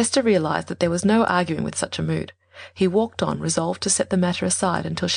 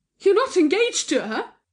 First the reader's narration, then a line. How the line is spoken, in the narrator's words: she cried out